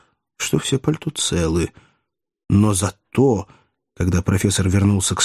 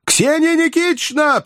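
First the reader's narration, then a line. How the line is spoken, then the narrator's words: Piercing shout. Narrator (Russian): пронзительно закричал он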